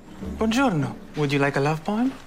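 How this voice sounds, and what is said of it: Italian accent. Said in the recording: “is that a real Italian accent?”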